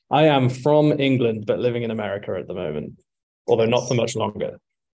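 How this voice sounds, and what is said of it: English accent. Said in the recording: “where are you from? Nice accent.”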